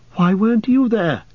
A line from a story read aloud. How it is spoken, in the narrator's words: cried Frodo